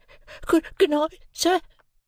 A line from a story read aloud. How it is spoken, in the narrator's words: I faltered